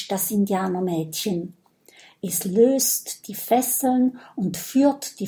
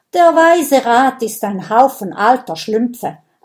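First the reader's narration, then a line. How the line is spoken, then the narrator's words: Angry girl answering. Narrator (German): antwortet das Indianermädchen wütend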